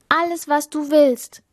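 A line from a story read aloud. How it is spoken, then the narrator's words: Princess calling out. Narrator (German): rief die Prinzessin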